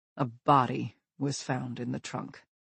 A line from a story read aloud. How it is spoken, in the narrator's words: He adds quietly